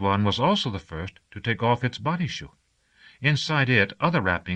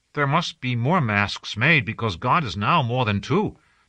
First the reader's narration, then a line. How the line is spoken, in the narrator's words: Tazu said